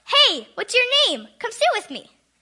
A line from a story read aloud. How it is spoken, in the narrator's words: He shouted out